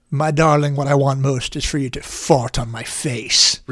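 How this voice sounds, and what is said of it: Put-on character voice. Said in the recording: “I don't know why I was doing whatever that voice was that I was doing.”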